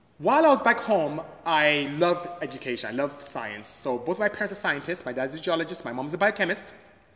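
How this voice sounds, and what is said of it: Nigerian accent. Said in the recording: “from the strange accent you can hear, I'm not from here. So I am Nigerian”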